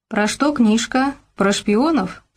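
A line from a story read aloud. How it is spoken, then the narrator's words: Plain. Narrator (Russian): спросил Гаврош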